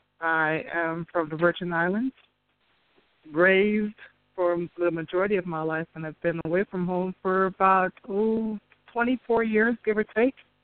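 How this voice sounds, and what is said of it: Slight Caribbean Virgin Islands accent. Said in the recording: “I thought my accent was gone, but, you know, every once in a while it reasserts itself... I can hear it.”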